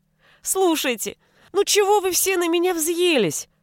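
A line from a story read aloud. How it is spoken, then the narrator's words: Whimpering. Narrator (Russian): хныкал окруженный людьми писец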